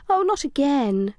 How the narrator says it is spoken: moaned

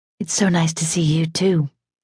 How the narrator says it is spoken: whispered, but she meant it

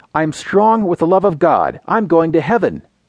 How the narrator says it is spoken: Startled, blurted

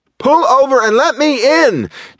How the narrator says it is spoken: Janna screamed

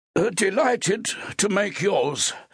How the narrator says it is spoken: replied the other, in a high, tight voice

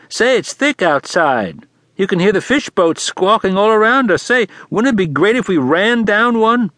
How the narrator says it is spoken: he said in a loud, high voice

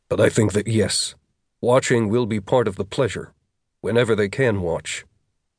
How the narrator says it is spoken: Jackson said

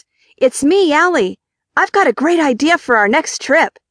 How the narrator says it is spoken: the person on the other end shouts

